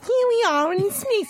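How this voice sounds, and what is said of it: Posh British Queen-like voice. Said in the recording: “Why didn't he have a British voice? ... If you had like the Queen's voice.”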